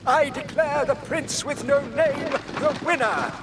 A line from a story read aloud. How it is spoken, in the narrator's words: cried the king